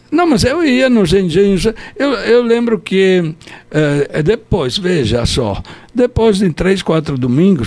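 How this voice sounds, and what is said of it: Slight Italian accent. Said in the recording (Portuguese): “sotaquezinho com sota... italiano”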